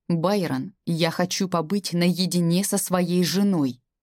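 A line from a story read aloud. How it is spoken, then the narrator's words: Through gritted teeth. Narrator (Russian): цедит сквозь зубы ректор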